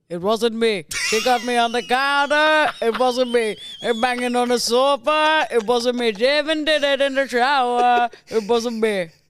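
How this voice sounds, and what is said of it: Imitates another person's singing voice. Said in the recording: “Can you do the first Shaggy, the singer?”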